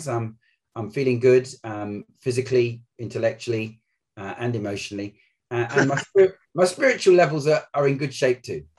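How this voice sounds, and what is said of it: London accent. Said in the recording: “I can hear the London accent coming through loud and clear.”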